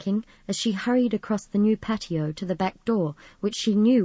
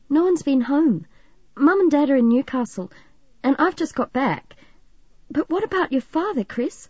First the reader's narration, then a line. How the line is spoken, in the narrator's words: she asked anxiously